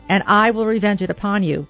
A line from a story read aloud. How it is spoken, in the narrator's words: cried Columba